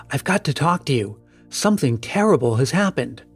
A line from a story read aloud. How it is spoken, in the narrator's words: he whispered